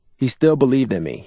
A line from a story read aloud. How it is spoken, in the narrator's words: he said